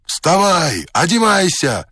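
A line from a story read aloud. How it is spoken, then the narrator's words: Several voices shouting. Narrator (Russian): кричало мне несколько голосов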